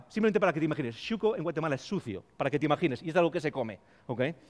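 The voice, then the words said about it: Spanish accent from Spain. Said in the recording (Spanish): “uno de ellos era mi acento. Cada vez que decía hola a alguien era como, ah, tú eres de España”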